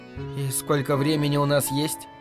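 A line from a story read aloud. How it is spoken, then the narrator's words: Plain question. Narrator (Russian): спросила она наконец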